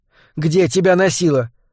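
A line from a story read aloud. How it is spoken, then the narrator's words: Mother's exclamation. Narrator (Russian): воскликнула мама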